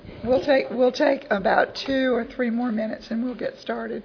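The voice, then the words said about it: Hoarse, fading voice. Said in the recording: “I'm in the process of losing my voice”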